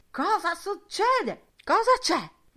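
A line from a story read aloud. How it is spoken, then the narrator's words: Shrill voices shouting around. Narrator (Italian): Le loro voci acute gli gridavano intorno da ogni lato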